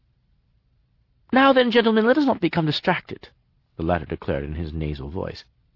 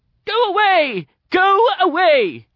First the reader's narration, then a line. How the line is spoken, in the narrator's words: came an ear-splitting shout from Sartorius